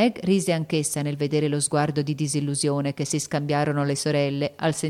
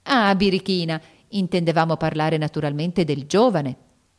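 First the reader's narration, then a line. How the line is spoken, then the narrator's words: Young woman laughing, exclaiming. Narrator (Italian): esclamò la signorina Bella, ridendo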